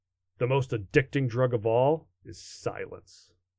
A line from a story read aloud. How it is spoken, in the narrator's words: he growled